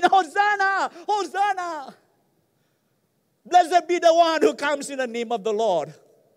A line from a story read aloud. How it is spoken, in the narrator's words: the people who were shouting